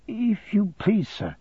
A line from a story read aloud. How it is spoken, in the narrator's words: I faltered